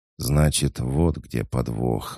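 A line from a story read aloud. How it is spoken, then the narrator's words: Exhaled words. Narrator (Russian): выдохнул Денис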